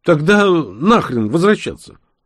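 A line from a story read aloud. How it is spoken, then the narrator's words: Cheerful shout. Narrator (Russian): весело выкрикнул Серго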